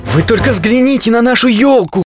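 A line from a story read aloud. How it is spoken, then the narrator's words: Exclaiming. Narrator (Russian): воскликнул Мумитроль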